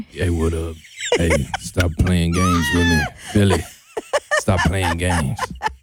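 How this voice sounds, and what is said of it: Impression of Trey. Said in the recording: “do a Trey impression? ... I got the illest Trey.”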